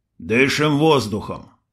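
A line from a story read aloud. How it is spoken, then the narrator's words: Grumbled. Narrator (Russian): буркнул Крот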